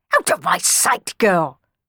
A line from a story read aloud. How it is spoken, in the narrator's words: barked Don Magnifico